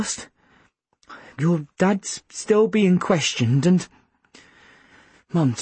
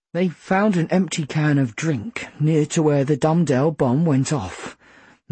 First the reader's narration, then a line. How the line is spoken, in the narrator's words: Mum said grimly